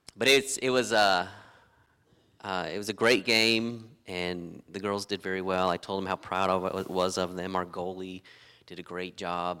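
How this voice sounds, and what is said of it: Slightly raspy voice. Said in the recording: “my voice is just, you can kind of hear a little bit of raspiness because of all that”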